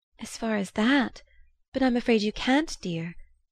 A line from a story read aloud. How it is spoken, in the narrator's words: she said in an unsteady voice